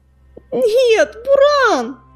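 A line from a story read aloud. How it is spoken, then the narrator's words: Anguished cry. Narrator (Russian): вскрикнул Огнезвезд, чувствуя, как глухая стена боли вырастает в его душе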